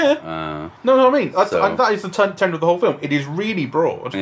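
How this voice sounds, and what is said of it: Usual voice. Nothing is said of it.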